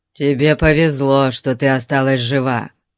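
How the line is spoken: Muttering. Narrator (Russian): пробурчал Конан

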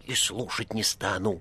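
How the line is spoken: Whispered into ear. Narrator (Russian): зашептал в самое ухо его Коровьев

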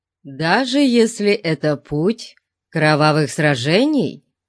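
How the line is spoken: Plain. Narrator (Russian): спросил он

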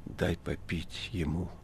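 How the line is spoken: Hoarse, strained request. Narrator (Russian): Иешуа стараясь, чтобы голос его звучал ласково и убедительно, и, не добившись этого, хрипло попросил

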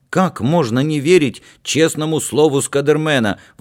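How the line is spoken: Exclaimed. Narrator (Russian): воскликнул Дима

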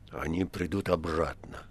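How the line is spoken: Quiet reply. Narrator (Russian): отозвался Римский тихо

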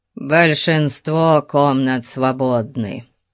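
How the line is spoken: Grumbled. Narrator (Russian): проворчал Кханон

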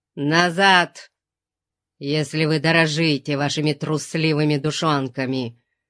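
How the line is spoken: Growling. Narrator (Russian): прорычал он

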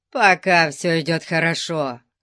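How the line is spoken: Grumble. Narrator (Russian): проворчал Конан

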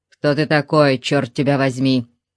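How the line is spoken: Growling. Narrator (Russian): прорычал

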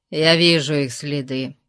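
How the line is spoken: Grumbling. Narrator (Russian): проворчал Конан

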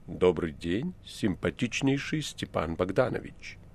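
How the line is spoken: Low heavy voice, foreign accent. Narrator (Russian): этот неизвестный, произнеся низким тяжелым голосом и с иностранным акцентом

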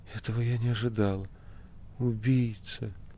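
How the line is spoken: Shaken whisper. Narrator (Russian): Она увидела лежащего мастера, содрогнулась и прошептала

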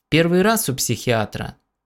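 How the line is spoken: Calm question. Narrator (Russian): спокойно спросил Кеок

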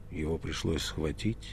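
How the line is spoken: Grim question. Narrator (Russian): мрачно спросил Пилат

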